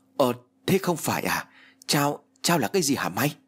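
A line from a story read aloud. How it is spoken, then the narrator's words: Stammering. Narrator (Vietnamese): Hữu lắp bắp nói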